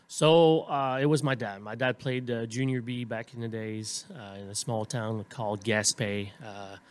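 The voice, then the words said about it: Slight French Canadian accent. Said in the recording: “I'm French Canadian. ... You still have a slight accent there”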